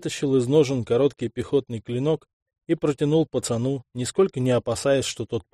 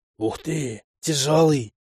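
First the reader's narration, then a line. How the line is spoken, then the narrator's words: Admiring boy's whisper. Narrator (Russian): С восхищением в голосе прошептал мальчишка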